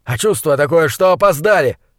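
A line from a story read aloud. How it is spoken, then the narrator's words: Shouting. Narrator (Russian): заорал Ваале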